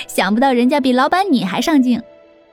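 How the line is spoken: Cheerful, grinning. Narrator (Chinese): 林阳却笑嘻嘻的说

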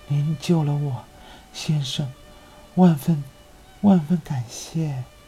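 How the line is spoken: Weak, grateful. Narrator (Chinese): 他声音虚弱地向达达尼昂道谢

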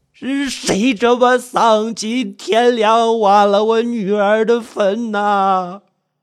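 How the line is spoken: Wailing cry. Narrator (Chinese): 呼天抢地地哭喊起来

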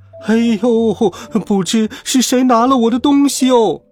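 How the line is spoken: Wailing lament. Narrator (Chinese): 小卖部的阿姨正哭天抢地的喊着

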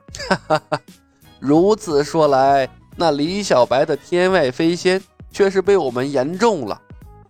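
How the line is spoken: Knowing, smiling old man. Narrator (Chinese): 发现李小白破绽的老者便露出了如智者一般的笑容，说道

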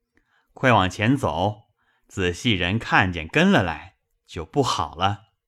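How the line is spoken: Laughing. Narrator (Chinese): 香莲笑道

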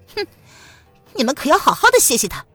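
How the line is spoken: Cold sneer through teeth. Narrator (Chinese): 蒋灵谦咬牙冷笑道

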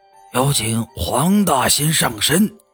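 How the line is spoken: Loud roar. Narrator (Chinese): 大师……大吼一声

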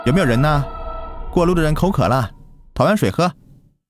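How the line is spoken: Calling out. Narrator (Chinese): 他叫道

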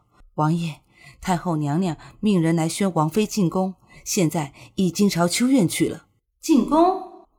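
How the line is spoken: Breathless. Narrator (Chinese): 管家喘着气说

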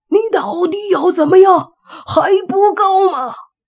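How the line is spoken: Taken aback. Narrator (Chinese): 莫凡被他这反应也是搞得一愣，随即说

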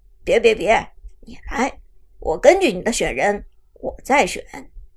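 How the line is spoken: Laughing. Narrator (Chinese): 国产神钩笑着说

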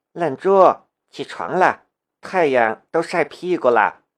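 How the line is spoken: Gentle, tender. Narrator (Chinese): 梁思瑶语气却很温柔

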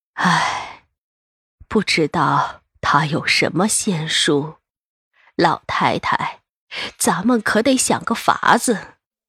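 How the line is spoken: Sighing. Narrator (Chinese): 慈姑叹了口气

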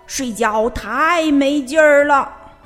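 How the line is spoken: Loud shout. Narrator (Chinese): 霹雳鼠大叫

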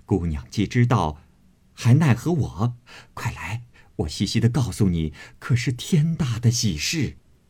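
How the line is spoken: Laughing. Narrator (Chinese): 他嫂子笑道

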